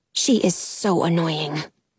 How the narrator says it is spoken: I mutter to Frankie

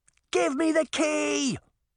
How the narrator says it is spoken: Sabrina screamed

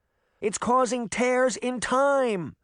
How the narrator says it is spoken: she shouted over the noise

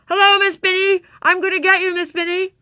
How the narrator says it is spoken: shouted in her muffled voice

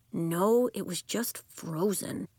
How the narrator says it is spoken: Elliot grumbled

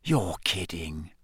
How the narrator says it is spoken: Ron whispered

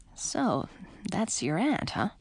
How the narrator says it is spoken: said under his breath

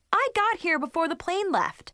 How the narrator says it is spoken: I exclaimed

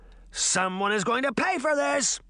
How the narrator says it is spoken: he shouted

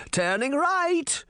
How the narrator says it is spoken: Granny shouted from the driver's seat

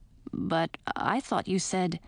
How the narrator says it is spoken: Edric, I heard him mumble softly

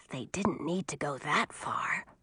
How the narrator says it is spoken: Audun whispered to Millie

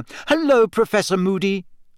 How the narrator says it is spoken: Hermione said loudly

